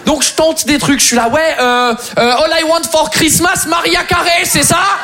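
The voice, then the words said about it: English accent speaking French. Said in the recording (French): “Très attaché à l'accent”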